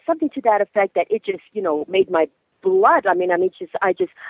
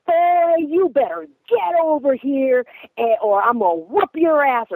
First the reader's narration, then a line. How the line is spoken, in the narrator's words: that man hollered, he bellowed, he hollered at him in that lobby, and he says